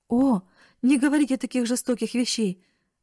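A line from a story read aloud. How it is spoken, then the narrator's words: Distressed exclamation. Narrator (Russian): воскликнула бедная Нетти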